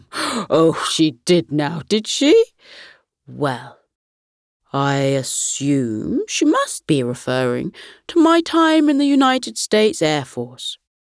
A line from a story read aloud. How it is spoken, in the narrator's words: Grandpa Gus chuckled and replied